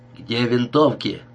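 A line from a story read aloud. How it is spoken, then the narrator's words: Plain. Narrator (Russian): спросил он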